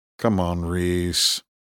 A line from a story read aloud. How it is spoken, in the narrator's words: Horn said in an almost bored, exasperated tone